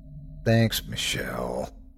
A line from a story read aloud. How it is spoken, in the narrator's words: I groaned